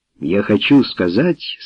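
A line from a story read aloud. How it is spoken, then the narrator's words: Calm reply. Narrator (Russian): спокойно ответил он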